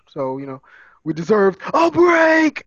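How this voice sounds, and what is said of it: Imitates Ross from Friends. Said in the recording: “in my Ross voice”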